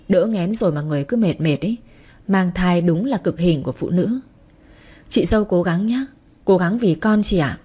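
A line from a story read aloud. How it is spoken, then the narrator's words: Sighing. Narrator (Vietnamese): Phương Oanh thở dài rồi nói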